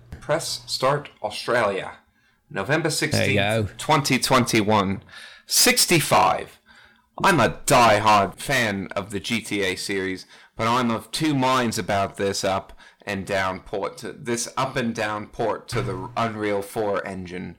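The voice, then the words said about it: Put-on Australian accent. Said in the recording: “Who wants to do an Australian accent? ... words here that I never thought I would say in an Australian accent”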